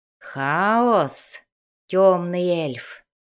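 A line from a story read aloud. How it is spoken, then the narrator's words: Guttural creak. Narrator (Russian): гортанно проскрипел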